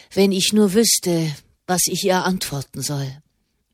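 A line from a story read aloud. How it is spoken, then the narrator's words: Murmuring. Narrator (German): murmelte er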